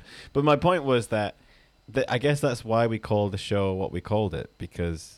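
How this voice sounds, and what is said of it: Usual voice. Nothing is said of it.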